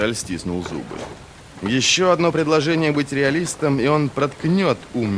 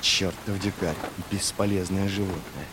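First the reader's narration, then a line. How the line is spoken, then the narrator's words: Muttering under breath. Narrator (Russian): пробормотал он себе под нос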